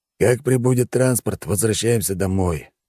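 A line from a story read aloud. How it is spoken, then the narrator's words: Weary. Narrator (Russian): устало проговорил командир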